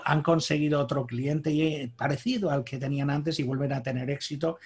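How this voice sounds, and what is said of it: Noticeable regional Spanish accent. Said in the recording (Spanish): “ya con tu acento ya está, nos damos cuenta”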